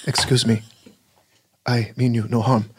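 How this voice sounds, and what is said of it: Imitates another person's voice. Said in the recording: “One of my impressions for my audition was David Carradine's Quatrain Kane from the television show Kung Fu ... For my next impression, I'd like to do Quatrain Kane from the TV show Kung Fu as portrayed by David Carradine.”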